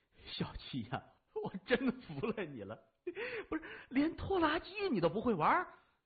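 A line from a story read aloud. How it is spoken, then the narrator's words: Laughing. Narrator (Chinese): 老四笑着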